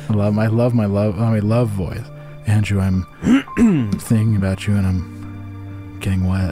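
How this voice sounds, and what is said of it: Sexy, seductive love voice. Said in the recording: “I'm giving examples in a sexy way with my sexy voice. I'm putting on my love voice right now.”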